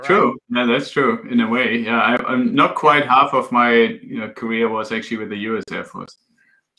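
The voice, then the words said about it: Slight foreign accent. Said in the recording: “I guess I get a little accent there. So maybe they think you're from the Belgian Air Force or something.”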